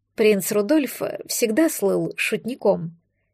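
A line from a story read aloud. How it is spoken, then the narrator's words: Quiet remark. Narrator (Russian): тихо заметила Мари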